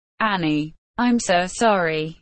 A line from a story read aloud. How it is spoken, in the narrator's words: Diane said